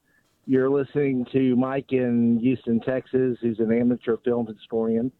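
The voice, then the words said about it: Regional American accent, Baltimore-like. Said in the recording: “You from Baltimore? Are you Maryland guy? Do I hear this in your voice? ... Philly? ... I thought you sounded like you're straight from Dundalk”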